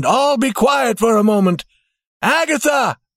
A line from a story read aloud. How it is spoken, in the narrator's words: he called as loudly as he could